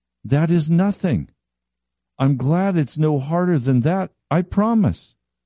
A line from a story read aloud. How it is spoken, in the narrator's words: sighed in relief